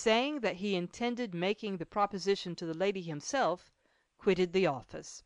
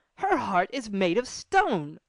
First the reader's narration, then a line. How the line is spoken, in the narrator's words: suddenly exclaimed Gaspard